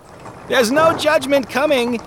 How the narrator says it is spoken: he called out the window as the coach pulled away

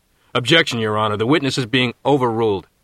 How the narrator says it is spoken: said Judge Kravitz firmly

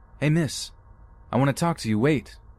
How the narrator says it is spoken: I hear him shouting at me

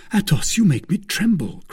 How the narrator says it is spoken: cried D'Artagnan

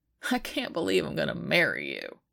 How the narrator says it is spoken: Biddy whines from the floor

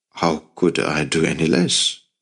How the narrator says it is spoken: Luke said quietly

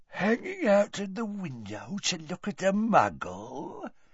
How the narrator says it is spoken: said Gaunt quietly

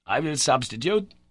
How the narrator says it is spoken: he said

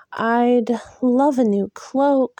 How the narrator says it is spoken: Elaine said, at last with a sigh

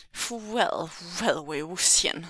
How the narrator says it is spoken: said the man in blue, sneering

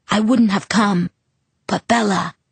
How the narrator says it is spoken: he whispered

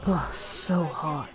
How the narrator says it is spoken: Hua Cheng mutters

